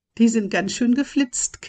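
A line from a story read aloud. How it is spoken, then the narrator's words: Giggling. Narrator (German): kicherte Holly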